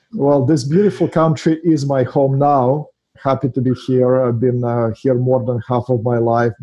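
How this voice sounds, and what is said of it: Russian accent. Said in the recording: “Originally, I'm from Russia. As you can hear from my accent, I'm not from here.”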